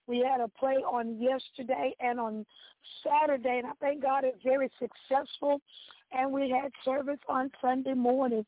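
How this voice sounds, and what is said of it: Hoarse voice. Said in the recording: “Excuse my voice today. It's a bit hoarse.”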